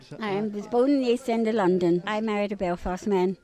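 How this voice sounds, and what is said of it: London accent. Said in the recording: “You have a London accent.”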